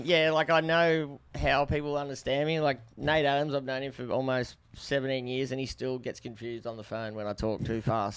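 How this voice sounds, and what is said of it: Australian accent, fast speech. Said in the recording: “he Aussie gets the idea... I say that with my accent”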